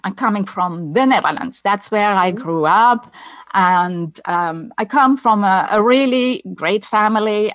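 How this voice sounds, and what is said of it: Dutch accent. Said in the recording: “my accent is Dutch”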